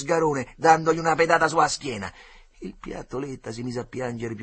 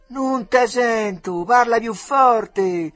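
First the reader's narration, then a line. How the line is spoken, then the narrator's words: Shouted from across river. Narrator (Italian): gridò dall'altra riva il Begalone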